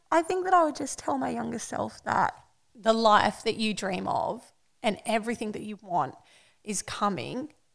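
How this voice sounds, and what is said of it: Emotional, moved speaking voice. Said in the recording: “I'm getting emotional”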